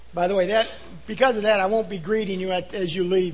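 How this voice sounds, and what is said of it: Voice with slight sore throat. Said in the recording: “I have a little bit of a sore throat”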